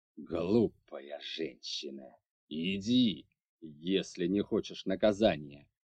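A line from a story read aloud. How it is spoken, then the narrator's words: Growling. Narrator (Russian): прорычал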